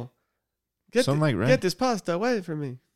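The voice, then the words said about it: Vampire character voice. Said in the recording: “That's my impression of a vampire that's allergic to garlic.”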